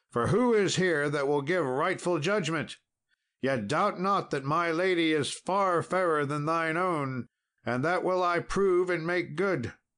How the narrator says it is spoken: cried Sir Tristram

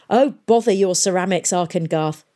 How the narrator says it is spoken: snapped Pomeroy

